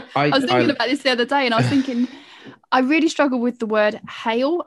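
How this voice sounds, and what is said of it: East London accent. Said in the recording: “you've got an East London accent”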